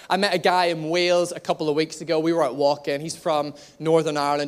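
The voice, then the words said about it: Northern Irish accent, slightly anglicized. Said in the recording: “I'm originally from Cumber ... my accent is a little bit more anglicized ... because I'm in Northern Ireland, I don't have to speak slowly. I can speak fast”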